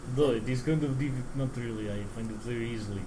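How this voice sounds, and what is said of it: Put-on Russian accent. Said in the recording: “it's actually really difficult to do a to do the Russian accent ... he just slipped right into ... that.”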